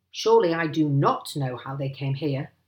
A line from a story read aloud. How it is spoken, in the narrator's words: snapped Mr